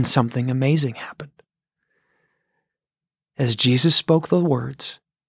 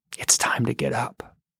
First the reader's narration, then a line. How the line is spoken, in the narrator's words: whispered